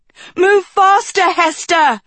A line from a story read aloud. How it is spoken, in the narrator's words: Agatha cried